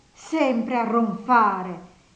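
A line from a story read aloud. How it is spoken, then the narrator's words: Disgusted exclamation. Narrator (Italian): esclamò guardandolo con disgusto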